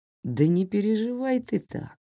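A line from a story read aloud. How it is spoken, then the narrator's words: Gentle, after coughing. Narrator (Russian): ласково сказал, когда кашель начал проходить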